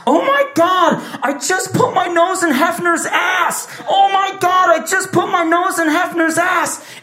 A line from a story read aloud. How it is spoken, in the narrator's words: holding his nose and he's yelling